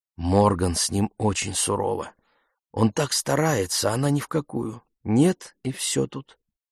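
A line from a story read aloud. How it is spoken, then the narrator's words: Said in low voice. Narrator (Russian): Кимберли вполголоса сказала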